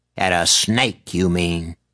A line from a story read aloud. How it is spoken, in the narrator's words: Calla snarled back